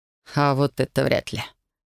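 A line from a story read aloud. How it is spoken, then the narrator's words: Skeptical snort. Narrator (Russian): хмыкнул он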